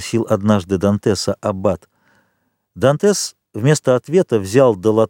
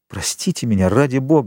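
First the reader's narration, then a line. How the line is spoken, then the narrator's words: Embarrassed exclamation. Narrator (Russian): воскликнул Эдмон, покраснев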